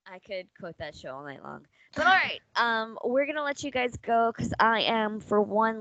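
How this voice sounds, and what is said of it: Hoarse, strained voice. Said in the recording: “losing my voice a little bit”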